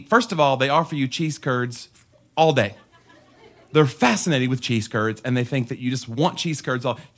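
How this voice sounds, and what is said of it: Tennessee Southern accent. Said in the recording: “they think that my accent is adorable ... your accent is precious. Where are you from? I said, I'm from Tennessee.”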